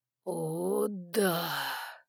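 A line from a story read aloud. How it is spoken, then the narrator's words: Long drawn-out exhale. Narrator (Russian): Протяжно выдохнул Саймон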